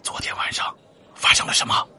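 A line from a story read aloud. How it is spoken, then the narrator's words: Low-voiced question. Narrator (Chinese): 王富贵他压低声音问道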